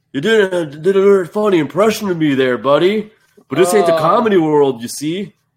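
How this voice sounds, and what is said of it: Imitates another person's voice. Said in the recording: “That's the best Bret Hart impersonation I've ever heard.”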